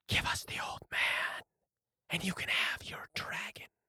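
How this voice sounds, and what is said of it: Raspy whispering monster voice. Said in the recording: “in the same raspy whisper”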